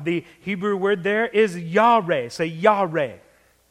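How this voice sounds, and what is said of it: Put-on Southern accent. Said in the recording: “I said that with a southern accent.”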